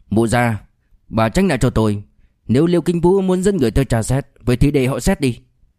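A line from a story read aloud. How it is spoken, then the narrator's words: Angry shout. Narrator (Vietnamese): Thái Bảo Sơn liền tức giận quát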